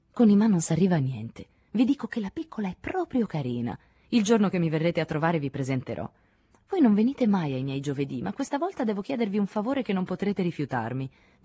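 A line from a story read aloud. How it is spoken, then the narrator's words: Petulant voice. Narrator (Italian): disse Claudie con voce petulante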